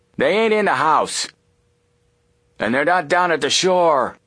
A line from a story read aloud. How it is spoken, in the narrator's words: The other yelled